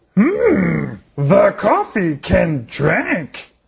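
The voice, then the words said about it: Yoda-like character voice. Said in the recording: “my Yoda imitation”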